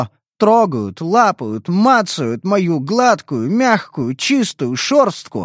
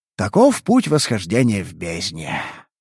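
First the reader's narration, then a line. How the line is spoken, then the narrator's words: Sighing. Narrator (Russian): вздохнул я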